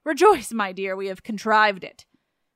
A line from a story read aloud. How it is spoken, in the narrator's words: the officious old nurse cried out